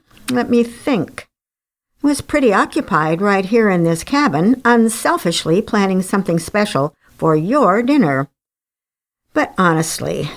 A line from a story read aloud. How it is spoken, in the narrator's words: smiled brightly